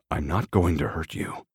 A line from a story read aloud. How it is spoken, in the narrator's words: he says quietly